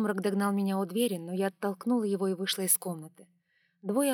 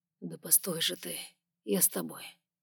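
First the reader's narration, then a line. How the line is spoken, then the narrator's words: Quiet, careful not to wake. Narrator (Russian): тихо проговорил Сумрак, боялся, видимо, разбудить кого-нибудь ненароком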